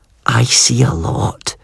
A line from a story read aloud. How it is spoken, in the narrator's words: Greer whispered into my ear